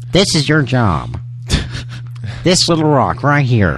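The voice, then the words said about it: Imitates another person's accented voice. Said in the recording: “that accent kind of bugged me too ... That's my Ribisi.”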